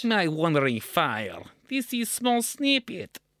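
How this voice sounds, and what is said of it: Put-on Russian accent. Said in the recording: “It's Russian. ... Should I attempt to do the accent, introduce it as such?”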